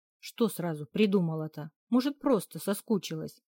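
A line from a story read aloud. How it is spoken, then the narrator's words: Angry thoughtful mutter. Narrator (Russian): сердито пробурчала, раздумывая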